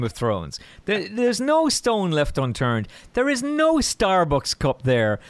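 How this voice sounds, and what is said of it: Usual voice. Nothing is said of it.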